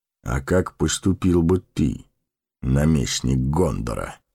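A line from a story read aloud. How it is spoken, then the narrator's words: Calm question. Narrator (Russian): спокойно спросил Гэндальф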